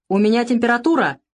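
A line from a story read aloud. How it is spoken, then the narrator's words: Near shout. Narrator (Russian): почти выкрикнул Савелий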